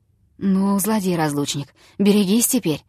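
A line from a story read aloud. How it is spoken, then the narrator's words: Muttered. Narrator (Russian): пробормотал он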